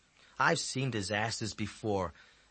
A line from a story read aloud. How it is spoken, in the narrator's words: Ezzy said in a bored voice